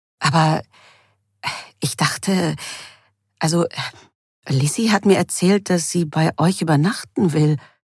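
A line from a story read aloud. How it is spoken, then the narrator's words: Stammering. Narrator (German): stammelte Anne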